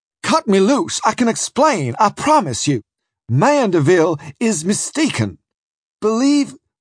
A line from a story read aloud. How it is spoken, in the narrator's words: I cried